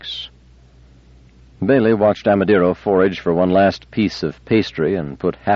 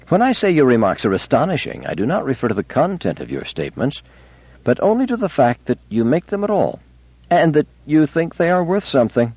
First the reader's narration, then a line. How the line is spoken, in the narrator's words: Amadeiro answered in a leisurely and amused tone